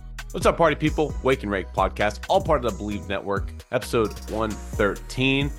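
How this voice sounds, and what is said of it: Sick-sounding voice. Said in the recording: “You can probably hear it in my voice still. I've been dealing with some sickness.”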